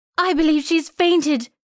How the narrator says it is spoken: cried out a girl

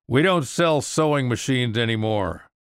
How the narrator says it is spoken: heard a shout

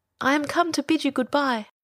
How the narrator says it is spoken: he cried

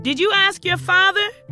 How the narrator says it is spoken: she shouted back

